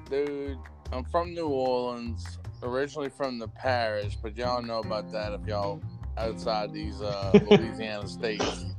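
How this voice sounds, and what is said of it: New Orleans Louisiana accent. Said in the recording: “Let me hear the accent”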